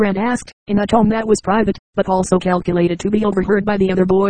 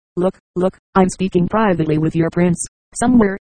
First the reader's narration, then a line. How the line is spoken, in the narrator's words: Baskell said